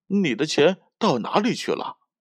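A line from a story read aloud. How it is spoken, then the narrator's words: Puzzled question. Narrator (Chinese): 小熊疑惑的问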